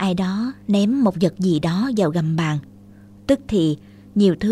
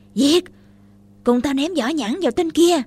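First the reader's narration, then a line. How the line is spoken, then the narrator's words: Two boys' battle cry. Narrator (Vietnamese): Hai thằng chúng tôi vừa hò hét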